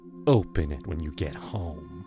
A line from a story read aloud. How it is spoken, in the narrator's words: she said, her voice dripping with venom